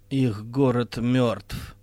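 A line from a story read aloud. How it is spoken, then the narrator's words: Said wearily. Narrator (Russian): устало сказала Вайнти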